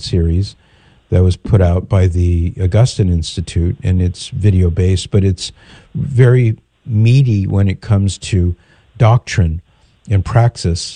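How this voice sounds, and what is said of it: Hoarse, croaky voice. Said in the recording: “Forgive my voice. I've got a big bit of a frog in my throat.”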